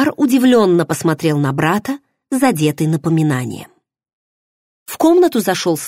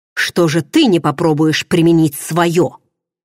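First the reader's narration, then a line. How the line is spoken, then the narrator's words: Angry, curt. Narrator (Russian): уже зло бросил Варан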